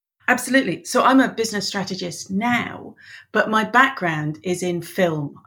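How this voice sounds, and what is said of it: English accent. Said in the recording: “She's Irish, nomadic, and is as confused as everyone else why she has an English accent.”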